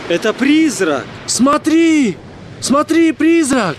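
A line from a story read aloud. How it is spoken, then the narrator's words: Group shouting. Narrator (Russian): Они кричали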